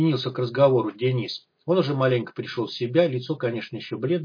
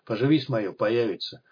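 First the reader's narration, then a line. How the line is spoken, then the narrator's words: Mocking old man, reassuring. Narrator (Russian): заверил старик, насмешливо глядя на пленника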